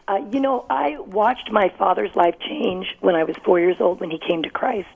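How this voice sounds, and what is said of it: Slightly hoarse voice. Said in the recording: “your voice is a little hoarse,”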